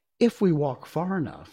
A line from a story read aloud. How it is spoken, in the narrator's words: said Dorothy